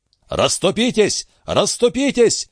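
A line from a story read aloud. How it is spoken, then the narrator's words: Barked. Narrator (Russian): рявкнул Дон Фернандо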